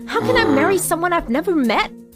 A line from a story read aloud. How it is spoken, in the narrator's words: Mary said angrily